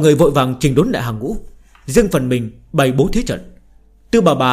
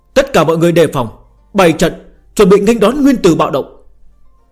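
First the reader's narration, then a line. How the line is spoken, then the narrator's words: Old woman, raised voice. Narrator (Vietnamese): Tư bà bà cao giọng nói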